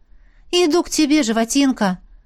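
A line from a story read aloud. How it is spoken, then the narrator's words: Silent mental exclamation. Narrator (Russian): Воскликнул я мысленно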